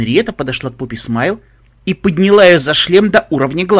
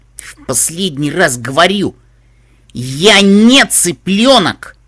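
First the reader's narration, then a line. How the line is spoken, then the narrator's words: Shrill rising shriek. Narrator (Russian): Голос грифины поднялся до пронзительного визга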